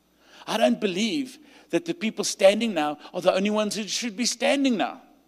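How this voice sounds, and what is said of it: South African accent. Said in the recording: “you hear by my accent, I'm South African”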